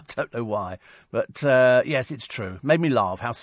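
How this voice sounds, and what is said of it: Usual voice. Nothing is said of it.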